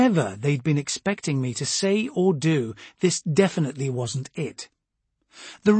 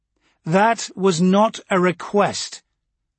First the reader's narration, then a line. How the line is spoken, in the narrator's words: I said, raising my voice a little